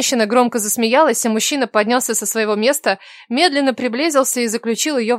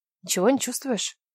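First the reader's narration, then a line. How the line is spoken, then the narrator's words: Whispered question. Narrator (Russian): Шепотом спросила Кира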